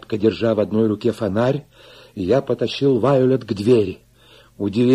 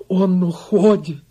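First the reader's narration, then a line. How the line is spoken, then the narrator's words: Sobbing. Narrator (Russian): зарыдала Вайолет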